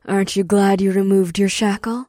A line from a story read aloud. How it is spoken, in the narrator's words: Ash chuckled